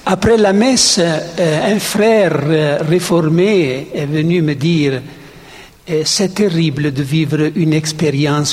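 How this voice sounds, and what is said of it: French spoken with Italian accent. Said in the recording (French): “qui parle un français avec un accent italien”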